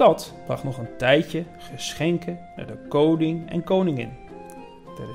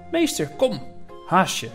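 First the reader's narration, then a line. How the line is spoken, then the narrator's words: Calling out. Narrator (Dutch): riep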